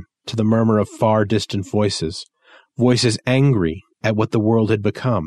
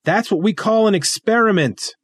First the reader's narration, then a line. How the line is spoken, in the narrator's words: I yell over the wind